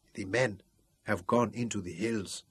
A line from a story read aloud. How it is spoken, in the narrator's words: whispered Ruth